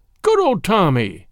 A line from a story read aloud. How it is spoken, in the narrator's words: he cried